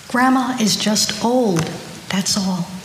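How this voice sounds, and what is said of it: Soft, almost whispered voice. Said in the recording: “in a soft voice that was almost a whisper”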